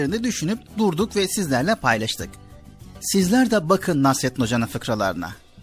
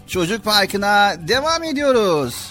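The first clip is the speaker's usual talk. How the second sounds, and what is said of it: Shouting loudly. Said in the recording (Turkish): “bağırmaya başladın ha. Bu bağırmada”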